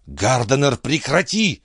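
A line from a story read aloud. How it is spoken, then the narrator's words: Hissed. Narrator (Russian): прошипела Маккардл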